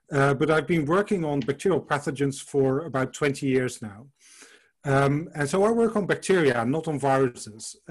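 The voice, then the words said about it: Dutch accent. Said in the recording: “I moved to the Midlands in 2017 from the Netherlands, hence the accent.”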